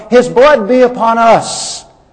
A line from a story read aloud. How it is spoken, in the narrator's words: The crowd yelled